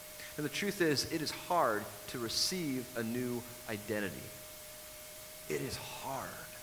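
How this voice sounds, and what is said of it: Usual voice. Nothing is said of it.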